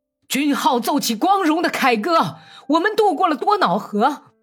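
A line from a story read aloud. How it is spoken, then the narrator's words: Angry roar. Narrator (Chinese): 利霍威多夫已经是在愤怒的吼叫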